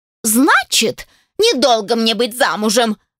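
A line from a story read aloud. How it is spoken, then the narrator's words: Blurted out. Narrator (Russian): выпалила она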